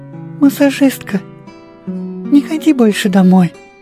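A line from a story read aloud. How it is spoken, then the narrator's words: Sleepy little voice. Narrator (Russian): начала она сонным голоском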